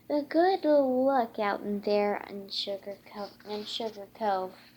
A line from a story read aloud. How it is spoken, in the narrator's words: he said